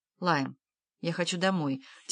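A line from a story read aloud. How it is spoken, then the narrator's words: Quiet. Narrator (Russian): тихо сказала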